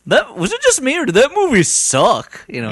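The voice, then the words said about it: Imitates another person's voice. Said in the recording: “my impression of him is not very good”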